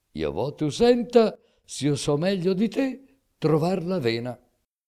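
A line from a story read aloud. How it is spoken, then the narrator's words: Laughing. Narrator (Italian): Rise Rinaldo e disse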